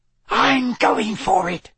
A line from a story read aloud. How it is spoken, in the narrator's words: Fred Weasley hissed down the table, his face lit with enthusiasm at the prospect of such glory and riches